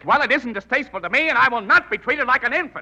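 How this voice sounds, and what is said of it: Shouting, raised angry voice. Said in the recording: “Don't shout! Shouting is the effort of a limited mind to express itself.”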